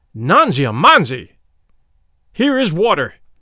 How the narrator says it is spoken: he cried with a loud voice

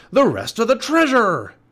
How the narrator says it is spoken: roared Cap'n Bones

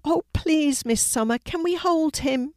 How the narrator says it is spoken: pleaded Vicky

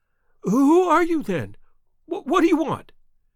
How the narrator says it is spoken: he asked in a quivering voice

